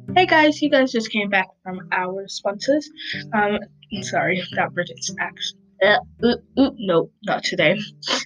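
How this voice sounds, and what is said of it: Put-on British accent. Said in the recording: “I keep on doing British accent, but I did it again”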